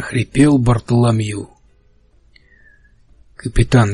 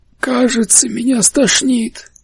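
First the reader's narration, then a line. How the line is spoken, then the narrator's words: Breathless exhale. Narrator (Russian): выдохнул Бартоломью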